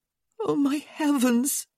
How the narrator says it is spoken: she moaned

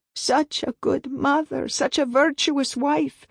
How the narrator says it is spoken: wailed a shawled woman with a nursing baby in her arms

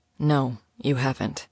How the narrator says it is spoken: he said softly

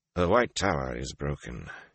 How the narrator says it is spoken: he said flatly

